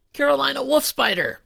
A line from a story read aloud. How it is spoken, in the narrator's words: Billy shouted